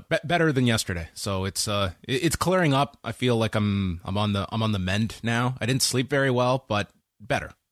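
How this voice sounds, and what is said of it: Slightly congested voice. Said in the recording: “I'm still like a little congested. I've got a cold, and maybe you can hear it a bit in my voice”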